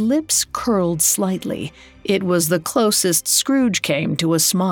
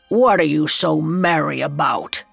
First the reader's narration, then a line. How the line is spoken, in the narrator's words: he growled